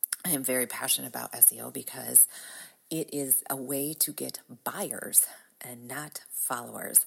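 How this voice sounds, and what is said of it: Groggy, raspy voice. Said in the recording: “My voice is a little groggy as it is allergy season ... Enjoy my raspy, sexy smoker's voice”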